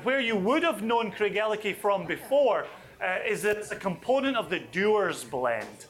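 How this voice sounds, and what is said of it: Put-on American accent. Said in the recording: “I said that in my best American accent.”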